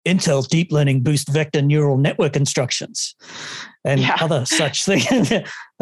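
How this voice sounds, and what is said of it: Mock radio announcer voice. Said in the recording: “let me just put on my radio announcer voice”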